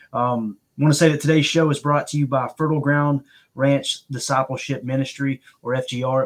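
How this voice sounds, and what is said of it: Strained voice with Southern accent. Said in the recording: “apologize for the voice ... the voice is struggling. This Southern country boy is hurting this morning ... sound like fingernails on a chalkboard ... with that accent”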